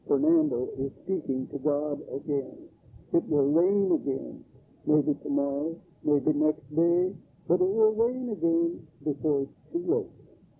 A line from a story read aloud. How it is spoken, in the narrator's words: reverently bow, cross themselves, and murmur